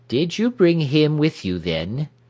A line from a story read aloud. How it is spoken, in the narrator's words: she asked sharply